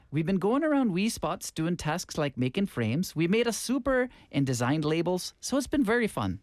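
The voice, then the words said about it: Put-on Irish accent. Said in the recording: “Should I do it in an Irish accent?”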